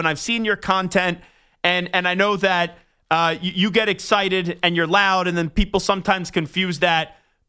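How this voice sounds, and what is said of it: Loud New York accent. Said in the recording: “the radio host that just yells ... I'm yelling sometimes, but I'm just a loud New Yorker. And that's how I speak”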